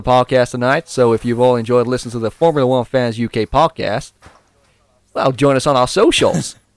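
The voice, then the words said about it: Put-on Southern Texan American accent. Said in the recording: “Is that an American accent? ... that was very Texan. ... very Texan. Yeah, very Southern. Very Southern.”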